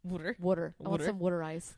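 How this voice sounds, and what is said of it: Weak put-on Philadelphia accent. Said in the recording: “It's bad. I can't do it. All I can do is a Philly accent, and it's just this.”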